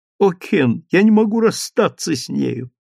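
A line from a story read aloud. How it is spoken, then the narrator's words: Tearful speech. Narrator (Russian): сказала она сквозь слезы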